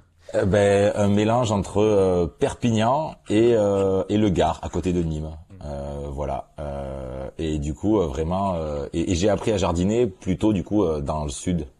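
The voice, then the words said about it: Southern French accent. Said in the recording (French): “C'est là où vous avez appris votre accent aussi. ... Dans le sud.”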